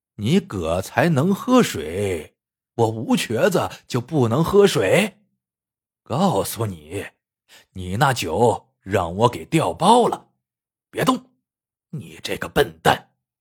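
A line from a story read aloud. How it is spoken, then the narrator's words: Sneering. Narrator (Chinese): 吴瘸子冷笑道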